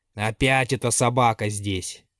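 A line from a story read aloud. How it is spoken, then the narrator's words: Grumbling old woman. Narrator (Russian): проворчала в ответ старуха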